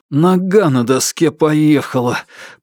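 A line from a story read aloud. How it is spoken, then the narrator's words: Hissed through teeth. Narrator (Russian): прошипел сквозь зубы Орлен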